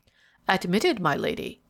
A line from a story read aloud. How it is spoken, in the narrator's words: he replied in his usual unctuous tones